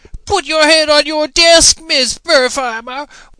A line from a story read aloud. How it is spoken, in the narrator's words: wailed the teacher